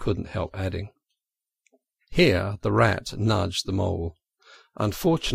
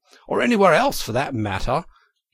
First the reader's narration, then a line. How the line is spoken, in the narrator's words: cried Toad boisterously